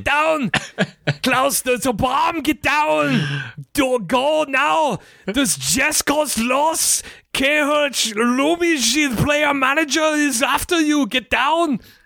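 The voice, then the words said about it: Put-on German or Austrian accent. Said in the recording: “That was good. ... No, that was really good. I think I don't know if the Austrian accent and the German accent are one for one.”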